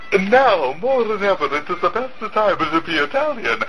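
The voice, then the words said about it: Put-on Italian accent. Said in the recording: “everyone's best Italian accent. And, of course, I'll share mine as well”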